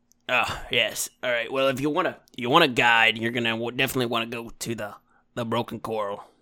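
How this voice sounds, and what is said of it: Wild West cowboy-style character accent. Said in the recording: “this kind of accent... It's almost like we're in the Wild West. I'm going to put like a cowboy hat on.”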